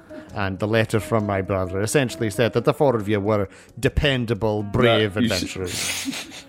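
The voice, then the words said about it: Inconsistent put-on accent. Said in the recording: “My accent's all over the place.”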